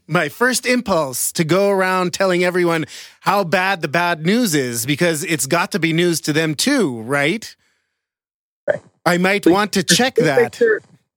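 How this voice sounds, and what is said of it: Ironic, sarcastic reading voice. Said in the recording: “reading this in an ironic voice”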